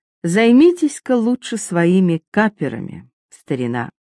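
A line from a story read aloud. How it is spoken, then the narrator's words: Gentle, kind. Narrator (Russian): Франклин ласково сказал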